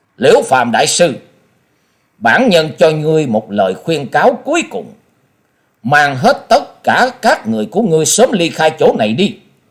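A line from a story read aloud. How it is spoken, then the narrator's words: Stern. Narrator (Vietnamese): Quyết Ma Thiên Tôn nghiêm nghị nói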